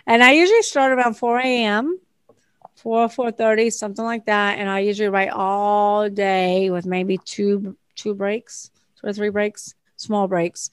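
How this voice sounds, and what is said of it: Speaker's own regional accent. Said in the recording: “It doesn't understand my accent.”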